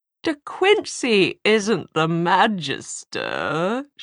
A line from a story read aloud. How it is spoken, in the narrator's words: she sneered